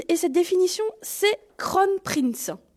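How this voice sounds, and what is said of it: French-accented English phrase. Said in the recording (French): “Veuillez excuser mon accent.”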